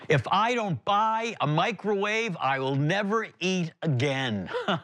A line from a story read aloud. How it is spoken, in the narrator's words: A voice that came from the other side of the aisle that yelled out